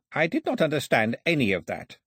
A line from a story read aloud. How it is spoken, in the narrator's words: said Ataba, looking coldly at her